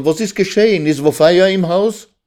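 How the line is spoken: Shout. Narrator (German): schrie Raisel

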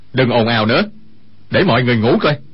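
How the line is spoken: Shout. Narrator (Vietnamese): Dương Khang quát

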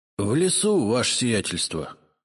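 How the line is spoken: Miserable voice. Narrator (Russian): несчастным голосом ответил Игнат

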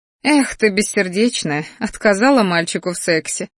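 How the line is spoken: Snorting. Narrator (Russian): фыркнула я

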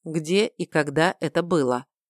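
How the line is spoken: Level-voiced question. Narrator (Russian): ровным голосом спросил брат

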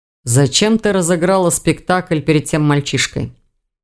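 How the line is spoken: Gloomy question. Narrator (Russian): мрачно поинтересовался Хью

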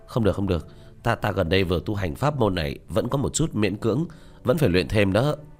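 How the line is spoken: Groaning. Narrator (Vietnamese): Tứ Bảo rên rỉ một tiếng

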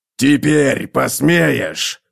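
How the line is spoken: Dwarf's growl. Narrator (Russian): прорычал гном

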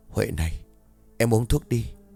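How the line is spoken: Gentle whisper. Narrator (Vietnamese): thì thầm

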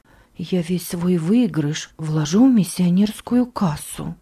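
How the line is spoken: Whisper. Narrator (Russian): шептала Гильда

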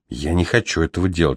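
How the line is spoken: Whispered. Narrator (Russian): шепнул он

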